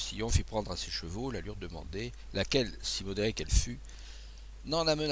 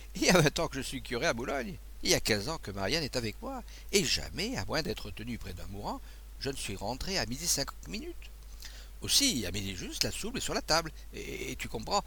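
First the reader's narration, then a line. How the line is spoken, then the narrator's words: Laughing. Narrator (French): dit en riant l'abbé Rémy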